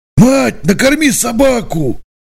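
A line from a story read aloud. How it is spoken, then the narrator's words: Shout. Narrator (Russian): крикнул Николай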